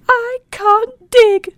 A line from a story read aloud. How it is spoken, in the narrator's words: cried Little Lark